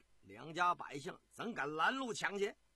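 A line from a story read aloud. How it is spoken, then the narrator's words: Plain. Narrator (Chinese): 这个大胡子说着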